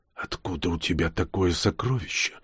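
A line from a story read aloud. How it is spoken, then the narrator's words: Dull, hollow question. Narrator (Russian): глухим голосом спросил он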